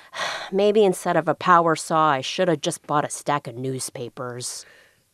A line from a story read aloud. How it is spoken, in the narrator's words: Hooper sighed deeply and said